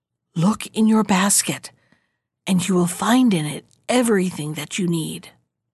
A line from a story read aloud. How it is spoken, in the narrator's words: a voice whisper to her